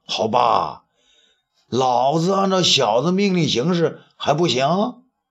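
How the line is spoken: Amused laugh. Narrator (Chinese): 东方朔呢笑了笑

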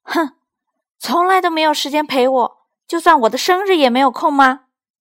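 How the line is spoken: Angry child shouting. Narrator (Chinese): 利奥气鼓鼓的对妈妈叫着

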